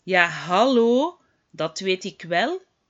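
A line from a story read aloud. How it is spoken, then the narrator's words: Plain. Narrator (Dutch): zegt Luna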